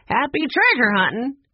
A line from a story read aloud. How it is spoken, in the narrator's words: laughed